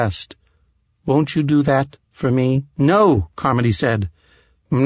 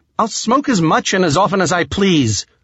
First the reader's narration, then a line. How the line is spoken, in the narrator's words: Carmody shouted